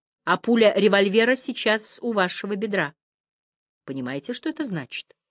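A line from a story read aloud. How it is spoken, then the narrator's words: Very quiet, threatening. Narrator (Russian): Я говорил совсем тихо, угрожающим тоном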